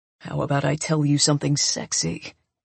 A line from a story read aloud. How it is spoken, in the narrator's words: he says in a low voice